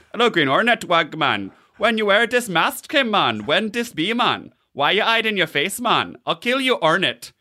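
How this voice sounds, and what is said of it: Put-on Jamaican-sounding accent. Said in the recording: “in a Jamaican sounding accent ... You doing this accent, by the way?”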